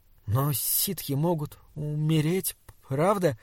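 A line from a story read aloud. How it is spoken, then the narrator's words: Cautious, stiff, stammering. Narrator (Russian): спросил он осторожно, проклиная свою закоченевшую, запинающуюся речь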